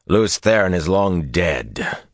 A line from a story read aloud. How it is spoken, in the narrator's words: he said harshly